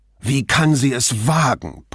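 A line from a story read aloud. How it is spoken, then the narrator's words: Blustering. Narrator (German): polterte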